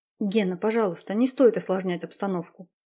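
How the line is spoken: Quiet request. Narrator (Russian): тихонько попросила его Марина

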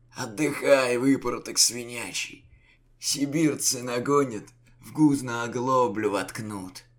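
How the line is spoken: Hoarse drunken voice. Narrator (Russian): хрипатый голос у грима перепойцы, казачьего атамана

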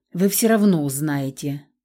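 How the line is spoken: Sighing manager. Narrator (Russian): вздохнул управляющий

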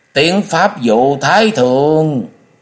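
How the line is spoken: Loud proclamation. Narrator (Vietnamese): một lão vừa gầy vừa đen lớn tiếng truyền

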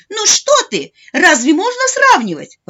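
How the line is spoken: Grandmother's exclamation. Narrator (Russian): воскликнула бабушка

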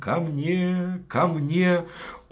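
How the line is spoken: Tender fairy call. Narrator (Russian): фея стала звать нежным голосом

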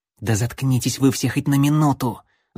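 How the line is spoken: Angry hiss. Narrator (Russian): Зло прошипел ассасин

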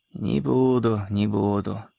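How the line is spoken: Trembling old man's voice. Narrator (Russian): ответил старик дрожащим голосом

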